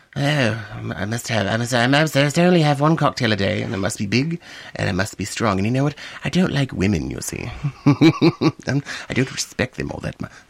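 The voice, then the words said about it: Proper British Ian Fleming impression. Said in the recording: “my British accent ... he does a really good impression of Ian Fleming ... that kind of proper ... That's how Ian Fleming sounded like.”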